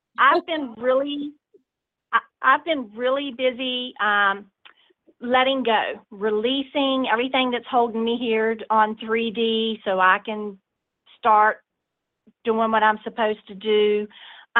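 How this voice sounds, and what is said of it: Southern US accent. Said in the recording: “I'm from the South, so that's where the accent's coming from.”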